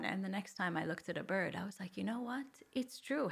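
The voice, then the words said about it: Canadian accent. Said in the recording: “a non-Maltese accent ... I'm from Toronto, from Canada”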